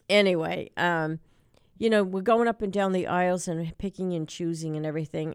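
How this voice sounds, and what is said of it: Slightly hoarse voice. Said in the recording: “I started getting a little hoarse there”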